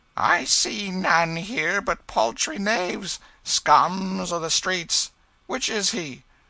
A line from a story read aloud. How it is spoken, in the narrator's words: The jailer laughed